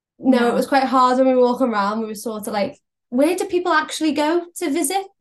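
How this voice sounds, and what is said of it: Liverpool Scouse accent. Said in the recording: “we can tell from the accent, you are both from Liverpool”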